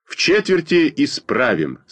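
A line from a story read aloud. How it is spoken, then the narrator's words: Firm voice. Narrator (Russian): сказал твердым голосом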